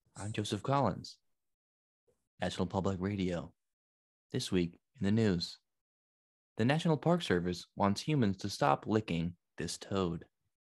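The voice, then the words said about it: Mock public radio announcer voice. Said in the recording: “I'm going to read this in NPR voice”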